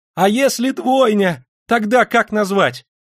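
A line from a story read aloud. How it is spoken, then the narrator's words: Loud shout. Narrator (Russian): крикнул он на весь отдел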